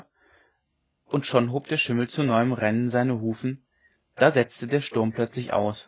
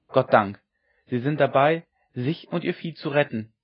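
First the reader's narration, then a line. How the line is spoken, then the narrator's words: Inner cry. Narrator (German): rief es in ihm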